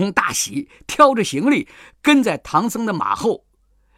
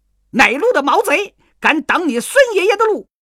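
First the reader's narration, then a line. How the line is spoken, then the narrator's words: Furious robbers. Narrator (Chinese): 强盗大怒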